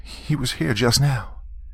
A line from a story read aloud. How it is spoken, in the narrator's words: said nervously